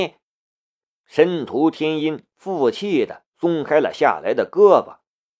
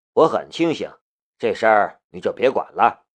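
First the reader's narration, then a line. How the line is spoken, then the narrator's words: Flat, calm. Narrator (Chinese): 夏雷淡淡的道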